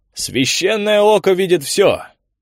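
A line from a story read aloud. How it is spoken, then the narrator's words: Roaring. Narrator (Russian): взревел монах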